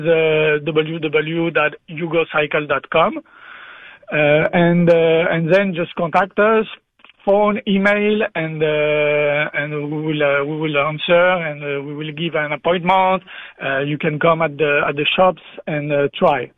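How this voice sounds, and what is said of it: French-accented English. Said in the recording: “sorry for my accent ... We are very used to talking to francophones, and we appreciate you making the effort in English”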